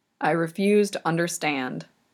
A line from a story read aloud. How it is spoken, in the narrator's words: Yakov mutters